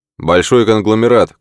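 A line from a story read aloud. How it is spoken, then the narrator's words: Shouted reply. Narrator (Russian): крикнул в ответ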